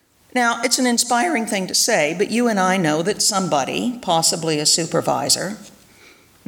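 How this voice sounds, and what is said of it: Usual voice. Nothing is said of it.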